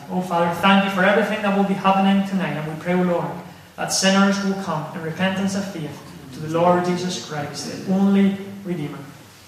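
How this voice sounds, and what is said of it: Spanish accent in English. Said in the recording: “You'll know from ... accent that he wasn't brought up in Stewart Park. And of course, our brother is from the land of Spain”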